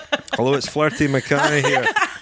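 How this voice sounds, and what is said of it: Put-on Scottish accent. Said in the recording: “I'll put on my best Scottish accent.”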